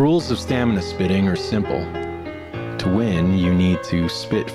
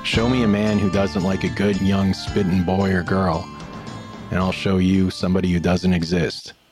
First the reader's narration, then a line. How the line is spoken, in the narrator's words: said a columnist